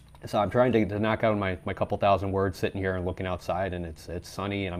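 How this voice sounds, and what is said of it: Weak, not-quite-recovered voice. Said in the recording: “if I sound weird, that's why. I'm getting over COVID still, so my voice isn't quite back”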